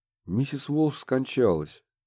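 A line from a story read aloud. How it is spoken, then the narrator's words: Sad reply. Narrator (Russian): печально ответил доктор Белл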